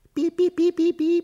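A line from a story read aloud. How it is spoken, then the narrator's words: Squeaking mice. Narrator (Russian): пищат мышки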